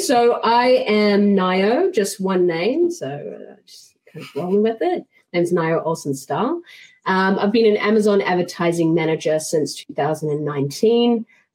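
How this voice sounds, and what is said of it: New Zealand accent. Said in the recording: “I'm originally from New Zealand, in case you were trying to pick the accent.”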